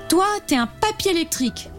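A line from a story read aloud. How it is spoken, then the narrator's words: Smiling exclamation. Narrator (French): s'écrie-t-elle en lui souriant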